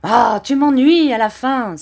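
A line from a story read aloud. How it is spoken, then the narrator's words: Furious exclamation. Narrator (French): s'écria Barberin qui se mit dans une terrible colère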